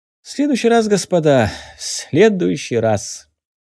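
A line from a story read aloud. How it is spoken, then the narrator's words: Laughing. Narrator (Russian): Засмеялся Сарычев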